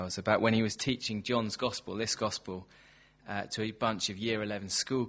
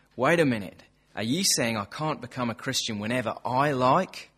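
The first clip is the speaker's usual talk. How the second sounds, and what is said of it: Put-on accent. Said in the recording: “you'll have to excuse the accent ... I'm going to cut the accent for your sakes.”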